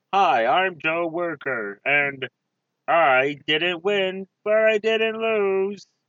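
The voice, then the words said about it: Shifts into a comic character voice. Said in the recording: “I like that we both started that voice as our normal voice and then got into the voice like three words in.”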